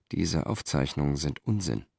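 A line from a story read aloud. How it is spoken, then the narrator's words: Quiet. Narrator (German): sagte Cicero leise zu Lucius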